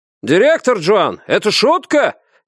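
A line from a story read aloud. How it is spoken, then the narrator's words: Indignant shout. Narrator (Russian): негодующе выкрикнул кто-то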